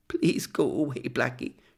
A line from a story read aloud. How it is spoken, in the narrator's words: she whimpered